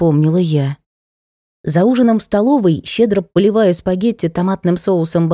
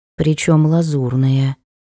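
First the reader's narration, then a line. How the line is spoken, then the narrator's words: Gloomy confirmation. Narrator (Russian): мрачно подтвердила она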